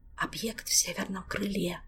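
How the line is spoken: Soft rustling voice from above. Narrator (Russian): также тихонько прошелестел голос Жака, где-то над их головами

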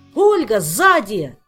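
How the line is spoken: Shouted. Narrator (Russian): крикнул Кантор

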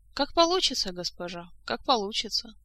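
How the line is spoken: Sighing. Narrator (Russian): снова вздохнул начальник

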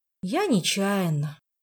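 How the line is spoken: Sigh. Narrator (Russian): вздохнул Жак

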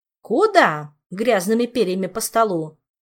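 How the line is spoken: Stern shout. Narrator (Russian): строго прикрикнула доктор

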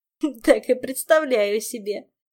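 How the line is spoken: Giggling. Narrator (Russian): хихикнул Жак

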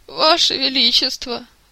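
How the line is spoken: Sighing. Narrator (Russian): вздохнул Жак

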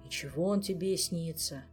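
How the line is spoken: Sigh. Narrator (Russian): вздохнул Элмар

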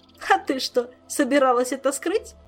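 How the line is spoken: Giggling. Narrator (Russian): Хихикнул он

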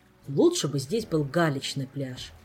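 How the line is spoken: Grumbling. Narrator (Russian): проворчал наконец Шелар

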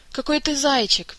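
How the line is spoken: Sad sigh, inner voice. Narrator (Russian): печально вздохнул внутренний голос

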